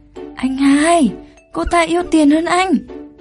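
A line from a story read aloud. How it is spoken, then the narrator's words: Embarrassed raised voice. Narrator (Vietnamese): Đường Minh Tuyên hơi đỏ mặt, cất cao giọng nói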